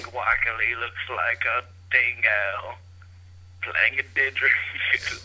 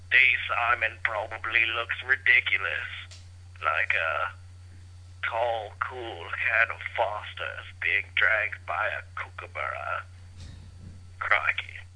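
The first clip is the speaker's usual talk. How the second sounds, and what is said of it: Bad put-on Australian accent. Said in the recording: “that's almost worse than the Australian accent that we do. ... It's not even an accent. It's just some guy sort of who's got a huge lung full of bong toke talking. ... just some really drunk dude”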